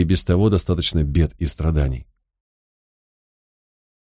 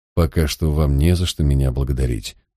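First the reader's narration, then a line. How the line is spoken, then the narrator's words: Embarrassed mutter. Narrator (Russian): буркнул я и несколько смутился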